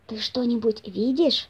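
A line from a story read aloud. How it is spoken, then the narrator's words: Whispering again. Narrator (Russian): снова прошептал хозяин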